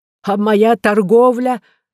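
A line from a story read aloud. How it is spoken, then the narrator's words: Merchant's exclamation. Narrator (Russian): воскликнул купец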